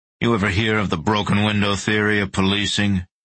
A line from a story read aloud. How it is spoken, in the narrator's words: asked in an angry voice